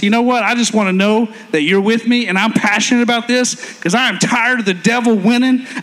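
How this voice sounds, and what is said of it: Raised, loud passionate voice. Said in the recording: “raising my voice”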